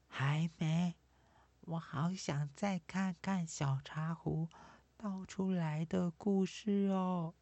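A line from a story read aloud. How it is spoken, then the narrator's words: Quiet. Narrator (Chinese): 菲菲小声地说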